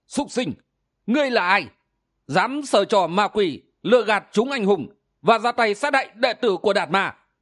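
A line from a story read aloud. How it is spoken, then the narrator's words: Furious loud shout. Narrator (Vietnamese): Ảo ma đầu đà căm hận, không nhẫn nại được nữa, quát lớn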